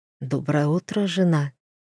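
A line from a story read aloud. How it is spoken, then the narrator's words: Whispered. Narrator (Russian): шепнул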